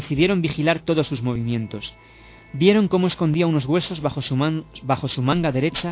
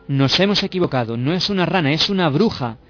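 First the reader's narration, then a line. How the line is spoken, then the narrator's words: Murmured among themselves. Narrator (Spanish): Murmuraban entre ellas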